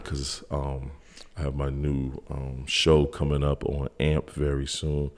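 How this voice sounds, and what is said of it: Laid-back, low, relaxed voice. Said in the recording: “I'm doing my laid back voice tonight... My laid back voice”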